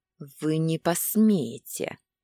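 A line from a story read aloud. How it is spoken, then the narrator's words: Furious, through gritted teeth. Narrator (Russian): Процедила сквозь зубы, даже не пытаясь скрыть бешенство, захлестнувшее меня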